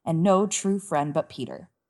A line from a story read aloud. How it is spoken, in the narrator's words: thought miserably